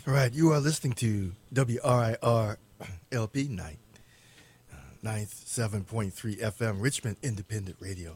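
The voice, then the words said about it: Hoarse, worn-out voice. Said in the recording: “I'm losing my voice. Spent all day yelling at soccer games.”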